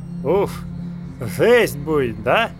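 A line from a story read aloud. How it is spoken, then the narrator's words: Lisping question. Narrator (Russian): Шепеляво спросил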